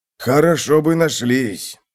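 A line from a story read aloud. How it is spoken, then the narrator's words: Grumbling old gnome. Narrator (Russian): проворчал старый гном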